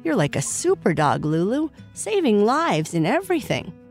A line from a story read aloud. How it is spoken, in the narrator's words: Sparky exclaimed